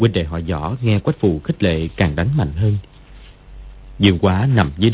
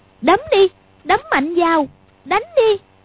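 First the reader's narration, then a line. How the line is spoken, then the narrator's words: Involuntary cry, uneasy, stinging. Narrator (Vietnamese): Quách Phù thấy hai đứa đánh dữ cũng hơi sợ, nhưng sờ lên mặt thấy nóng rát vì cái tát vừa nãy thì bất giác kêu lên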